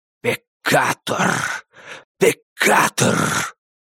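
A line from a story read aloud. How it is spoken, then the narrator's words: Eerie distinct whisper. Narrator (Russian): страшный, дико отчетливый шепот произнес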